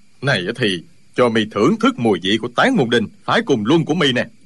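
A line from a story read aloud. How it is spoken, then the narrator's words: Furious shout. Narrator (Vietnamese): Y cả giận quát lên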